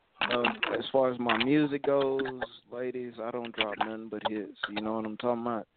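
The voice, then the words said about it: Southern American Alabama accent. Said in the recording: “Now I hear that accent. Where are you from ... I'm from Alabama.”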